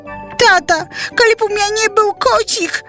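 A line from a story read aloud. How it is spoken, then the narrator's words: Exclaiming. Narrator (Belarusian): усклікнула яна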